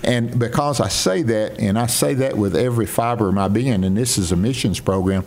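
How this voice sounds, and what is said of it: Northeast Mississippi Southern accent. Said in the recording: “he can't do much about my sound and my accent ... I'm still from Northeast Mississippi, and everyone knows it ... you're from the South”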